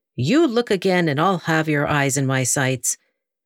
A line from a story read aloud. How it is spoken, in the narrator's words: one of the women said sternly